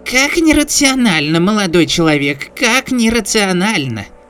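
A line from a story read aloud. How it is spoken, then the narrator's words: Perky squeak, old man. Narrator (Russian): Задорно пропищал дедуля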